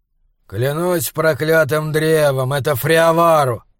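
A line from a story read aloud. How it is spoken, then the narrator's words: Grumbling. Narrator (Russian): проворчал голос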